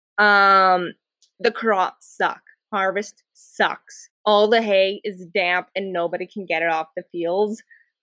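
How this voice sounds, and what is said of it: Rural Alberta accent, drawn-out ers. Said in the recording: “my very hick rural Alberta accent with the long drawn out ers”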